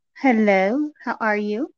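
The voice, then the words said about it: Put-on sultry sexy voice. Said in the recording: “that ain't your real voice ... It's my sexy voice”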